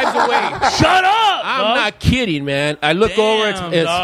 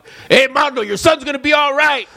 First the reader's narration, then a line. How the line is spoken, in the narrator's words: Some guy yells out